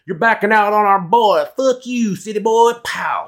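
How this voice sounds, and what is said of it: Put-on country accent. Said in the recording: “I didn't have to do that country-ass accent.”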